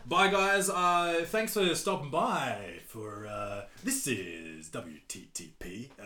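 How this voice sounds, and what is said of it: Put-on radio announcer voice. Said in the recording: “That's my radio voice.”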